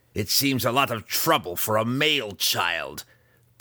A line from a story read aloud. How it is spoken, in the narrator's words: Breeza grumbled